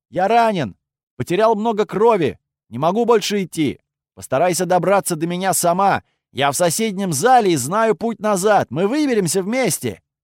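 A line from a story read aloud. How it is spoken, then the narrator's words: Shout. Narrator (Russian): выкрикнул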